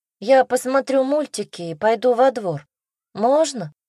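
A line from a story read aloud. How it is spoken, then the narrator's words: Sighing. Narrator (Russian): вздохнула Саша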